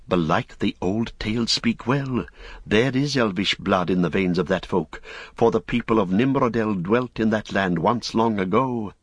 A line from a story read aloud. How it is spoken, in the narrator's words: Men that saw them whispered, saying